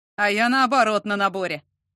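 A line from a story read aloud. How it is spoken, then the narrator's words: Amused snort. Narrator (Russian): хмыкнул Антон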